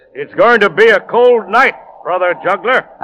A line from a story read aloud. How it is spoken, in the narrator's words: the monk smiled and called out